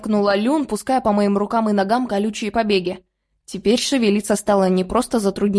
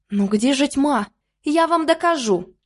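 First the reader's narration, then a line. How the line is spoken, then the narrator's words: Excited exclamation. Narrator (Russian): Азартно воскликнула Лиса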